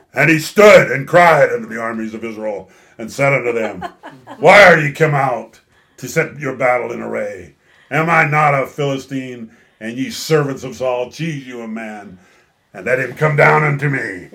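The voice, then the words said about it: Big, scary, powerful giant voice. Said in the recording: “a much more Goliath-y voice ... my powerful voice ... that big, scary voice ... there's your powerful voice”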